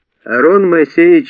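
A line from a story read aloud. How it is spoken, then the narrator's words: Loud laughing. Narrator (Russian): захохотал Вовик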